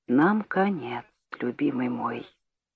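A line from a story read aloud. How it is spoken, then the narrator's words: Whispered. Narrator (Russian): прошептала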